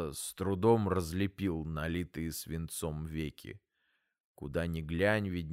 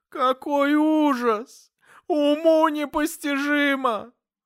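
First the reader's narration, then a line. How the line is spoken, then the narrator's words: Sobbing lament. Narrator (Russian): Рыдая, она причитала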